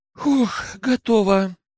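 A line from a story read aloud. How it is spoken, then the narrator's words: Sighing. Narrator (Russian): вздохнула Дина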